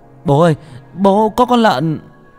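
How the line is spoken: Panicked cry. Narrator (Vietnamese): Tôi hốt hoảng kêu lên

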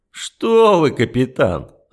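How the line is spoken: Laughing. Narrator (Russian): рассмеялся полковник

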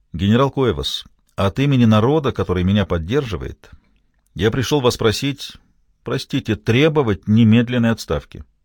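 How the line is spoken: Firm voice. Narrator (Russian): сказал твердым голосом

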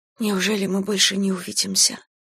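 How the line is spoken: Close intimate whisper. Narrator (Russian): прошептала она, наклоняясь к самому его лицу

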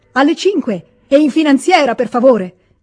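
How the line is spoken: Shouted again. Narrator (Italian): gridò ancora una volta

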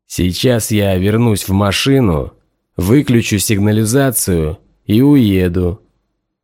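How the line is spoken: Plain. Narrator (Russian): сказал Хардин

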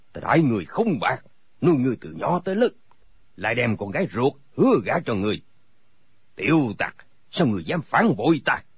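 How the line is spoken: Angry shout. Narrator (Vietnamese): Thành các tư hãn bộ mặt giận dữ, quát

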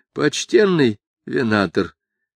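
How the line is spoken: Sad. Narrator (Russian): сказал он печально

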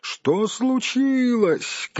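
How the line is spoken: Shout. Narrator (Russian): крикнул Бильбо

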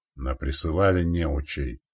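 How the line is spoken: Grumbling senior man. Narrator (Russian): проворчал старший расчета

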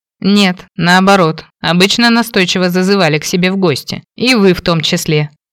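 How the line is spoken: Snide remark. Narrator (Russian): ехидно проронил Кейн

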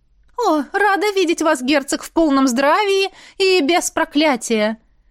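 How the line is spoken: Cheerful woman's greeting. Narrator (Russian): Весело обратилась огненная ведьма к Роналу

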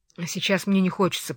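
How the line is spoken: Hurried mutter. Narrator (Russian): пробормотал он торопливо

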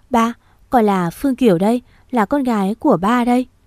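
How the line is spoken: Trembling, holding back sobs. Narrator (Vietnamese): cô cố nén tiếng nước nở, mỉm cười, giọng nói run rẩy cất lên

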